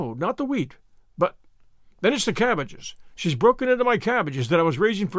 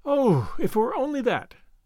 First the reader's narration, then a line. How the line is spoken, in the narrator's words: sighed Anne